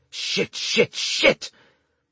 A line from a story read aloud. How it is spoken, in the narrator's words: the veteran hissed out between clenched teeth